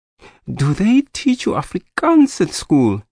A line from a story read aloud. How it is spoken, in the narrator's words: He said excitedly